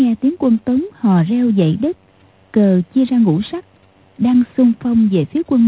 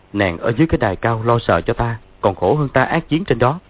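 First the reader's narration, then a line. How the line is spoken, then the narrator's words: Smiling. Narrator (Vietnamese): Dương Quá mỉm cười nói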